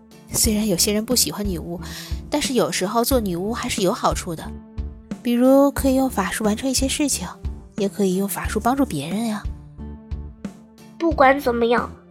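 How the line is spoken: Gentle, comforting mother. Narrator (Chinese): 妈妈安慰地说

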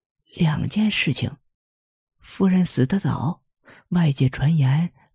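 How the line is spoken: Quieter, muffled whisper. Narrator (Chinese): 保姆的声音更小了，用手挡住嘴说

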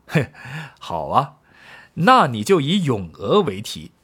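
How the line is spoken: Laughing. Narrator (Chinese): 客人 笑道

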